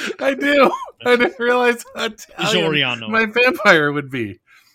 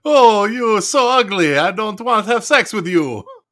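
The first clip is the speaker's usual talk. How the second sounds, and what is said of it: Italian-accented vampire voice. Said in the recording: “You have a very Italian vampire ... my Italian accent”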